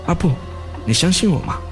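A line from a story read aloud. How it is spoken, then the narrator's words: Quiet. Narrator (Chinese): 刀如小声对我说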